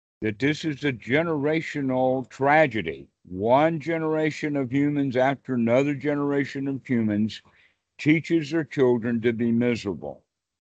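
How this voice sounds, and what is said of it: Deep Southern American accent. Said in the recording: “I was actually raised in the Deep South myself, as you can tell from my accent.”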